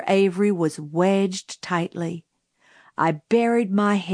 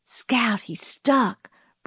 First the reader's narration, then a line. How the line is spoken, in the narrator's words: breathed Jim